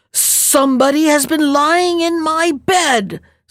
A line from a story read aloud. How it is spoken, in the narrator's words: said the Great Huge Bear in his great rough, gruff voice